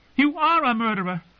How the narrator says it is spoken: she screamed

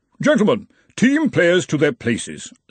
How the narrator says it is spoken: said the Arch-Chancellor of Brazenek haughtily

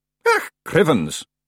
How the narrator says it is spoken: it grumbled

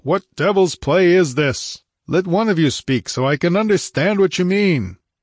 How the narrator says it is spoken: He beat down the din with a bull-like roar and bellowed

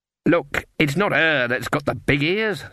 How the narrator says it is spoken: snapped Fairy Daisy

